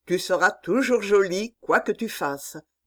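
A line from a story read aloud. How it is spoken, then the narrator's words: Plain. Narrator (French): dit Georges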